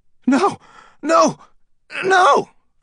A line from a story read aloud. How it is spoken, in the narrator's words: Fielding cried